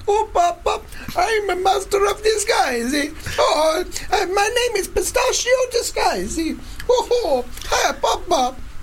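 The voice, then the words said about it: Exaggerated put-on Italian accent. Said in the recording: “He can't do an Italian accent ... an annoying voice that he puts on ... this kind of ridiculous Italian accent”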